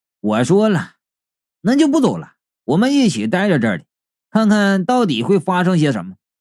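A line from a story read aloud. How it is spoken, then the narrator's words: Cold tone. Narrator (Chinese): 貔貅冷冷的道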